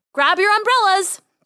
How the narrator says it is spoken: Dolores called out

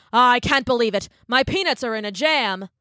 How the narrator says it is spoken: The king cried

